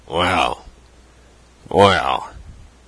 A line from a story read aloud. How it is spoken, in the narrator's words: said he gruffly